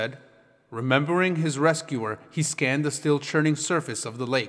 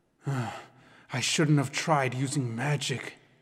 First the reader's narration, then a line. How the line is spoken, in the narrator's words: he murmured